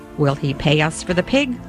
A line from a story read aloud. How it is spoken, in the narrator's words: I said